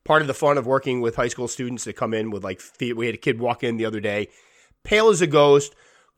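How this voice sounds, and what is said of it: Congested, weak voice. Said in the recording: “I'm obviously congested this morning... my voice is a little bit weak”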